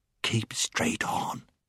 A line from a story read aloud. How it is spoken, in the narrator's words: whispered Puddleglum